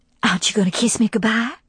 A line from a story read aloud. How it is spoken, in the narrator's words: she whispered, mindful of the ears of the house